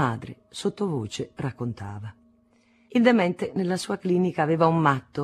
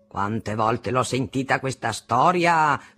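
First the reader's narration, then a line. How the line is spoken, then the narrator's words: Father's thundering voice. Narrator (Italian): tuonava mio padre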